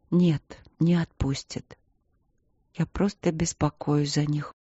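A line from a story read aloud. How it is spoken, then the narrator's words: Quiet. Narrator (Russian): тихо произнесла Аня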